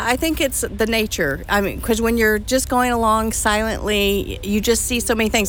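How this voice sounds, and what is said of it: American accent. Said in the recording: “your amazing accent ... Americans”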